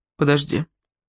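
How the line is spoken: Embarrassed mutter. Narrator (Russian): буркнул он, смущенно

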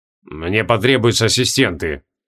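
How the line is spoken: Gloomy summing up. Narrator (Russian): мрачно подытожил Креол

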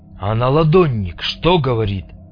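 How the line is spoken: Deep bass voice, bearded man. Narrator (Russian): пробасил бородатый

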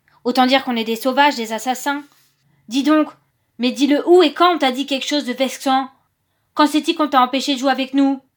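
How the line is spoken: Roaring. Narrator (French): rugissait Lebrac

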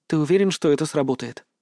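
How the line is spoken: Whispered. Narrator (Russian): Она прошептала

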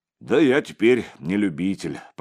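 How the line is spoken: Deep bass voice. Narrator (Russian): пробасил отец Егорий

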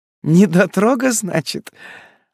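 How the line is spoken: Laughing loudly. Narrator (Russian): Она захохотала

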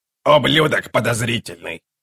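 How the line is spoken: Grumbling. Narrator (Russian): проворчала Карга

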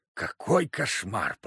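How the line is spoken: Whisper. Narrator (Russian): прошептал Тихоныч

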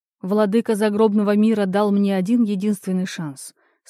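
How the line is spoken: Calm. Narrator (Russian): спокойно ответил Орфей

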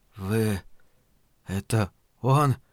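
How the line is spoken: Whispered. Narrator (Russian): прошептал мусорник

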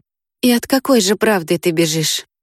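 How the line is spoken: Quiet question. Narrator (Russian): тихо спросил Мартин

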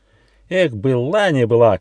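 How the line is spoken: Young squirrel's shout. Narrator (Russian): крикнул бельчонок Рыж

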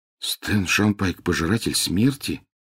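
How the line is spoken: Mumbling. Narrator (Russian): пробормотал Гарри

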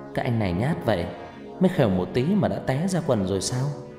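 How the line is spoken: Smiling woman. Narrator (Vietnamese): Cô gái mỉm cười

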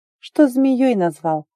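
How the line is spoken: Sad sigh. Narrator (Russian): Вздохнула она как-то грустно

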